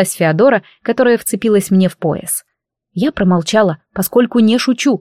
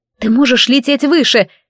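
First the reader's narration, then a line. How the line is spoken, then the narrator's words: Shout. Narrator (Russian): крикнула я дракону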